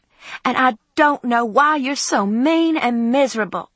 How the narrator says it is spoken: screamed my mother

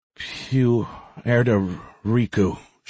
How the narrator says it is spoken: she mumbled

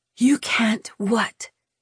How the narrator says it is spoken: She whispered, somehow still demanding

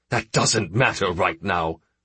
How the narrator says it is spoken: the senator snapped

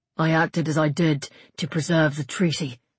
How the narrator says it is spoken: he said, finding the strength somewhere to make his voice steady

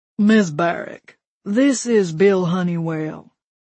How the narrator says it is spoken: he said in his thick, slow voice

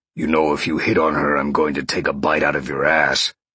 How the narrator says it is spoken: Sean growled

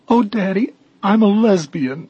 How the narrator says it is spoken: sobbed

